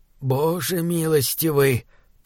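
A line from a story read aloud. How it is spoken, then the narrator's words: Muttered. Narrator (Russian): пробормотал Барретт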